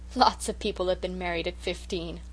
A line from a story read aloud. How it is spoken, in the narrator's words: laughed the Story Girl